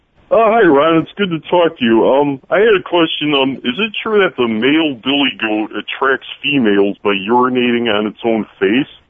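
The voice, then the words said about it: Imitates another person's voice. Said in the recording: “That's an amazing impersonation.”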